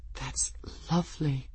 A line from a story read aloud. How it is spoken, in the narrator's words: she breathed